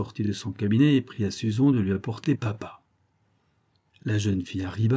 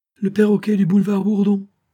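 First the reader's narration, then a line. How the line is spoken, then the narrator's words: Phonographist exclaiming. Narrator (French): s'écria le phonographiste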